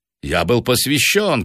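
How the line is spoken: Old man's shout. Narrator (Russian): крикнул старый негодяй

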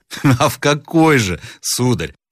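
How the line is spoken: Mocking question. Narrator (Russian): спросил насмешливо Рославлев

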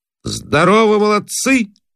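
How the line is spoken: Loud greeting. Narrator (Russian): Особенно громко приветствует он

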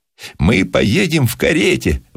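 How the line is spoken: Delighted exclamation. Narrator (Russian): восторженно воскликнул джип

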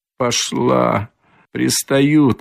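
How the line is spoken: Girl's mutter. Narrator (Russian): пробормотала девочка

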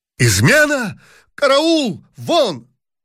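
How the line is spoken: Emperor shouting. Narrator (Russian): закричал император

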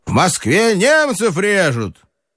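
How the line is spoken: Shout. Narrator (Russian): крикнул

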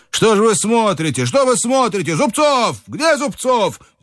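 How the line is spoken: Shouting. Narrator (Russian): Иван Ильич кричал

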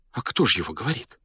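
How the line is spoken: Frightened whisper. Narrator (Russian): испуганно прошептала она

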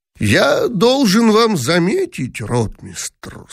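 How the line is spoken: Very creaky, unfriendly voice. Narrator (Russian): сказал самым скрипучим голосом Дибич, вновь теряя добродушие

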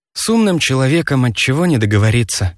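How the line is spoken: Sighing old woman. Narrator (Russian): вздохнула старушка

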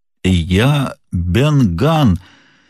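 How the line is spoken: Strange rusty hoarse voice. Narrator (Russian): отвечал странным и хриплым голосом, напоминавшим звук ключа в заржавленном замке

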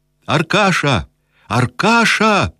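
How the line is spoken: Shout. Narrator (Russian): закричал Кирсанов

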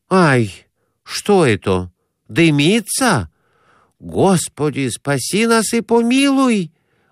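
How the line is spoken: Sudden frightened exclamation. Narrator (Russian): Вдруг воскликнул Конурин, останавливаясь в испуге

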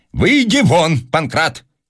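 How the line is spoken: Barking. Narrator (Russian): Персиков рявкнул

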